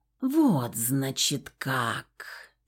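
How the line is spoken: Hissed. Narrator (Russian): прошипела Нага

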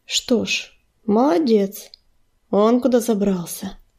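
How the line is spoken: Dry, uncertain mutter. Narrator (Russian): сухо пробормотал Огнезвезд, не зная, стоит ли ему сердиться на своего оруженосца

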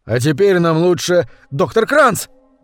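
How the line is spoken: Terrified yell. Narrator (Russian): в ужасе заорал кто-то

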